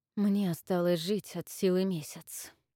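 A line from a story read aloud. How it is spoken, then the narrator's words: Quiet. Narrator (Russian): тихо вымолвил Авис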